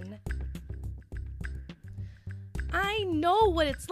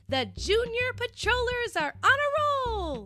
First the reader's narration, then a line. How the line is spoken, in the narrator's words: yelled Minnie